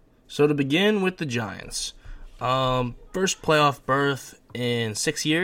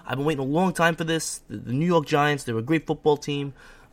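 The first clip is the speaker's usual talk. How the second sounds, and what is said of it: Exaggerated New York accent. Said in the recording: “I'll even put in my New York accent.”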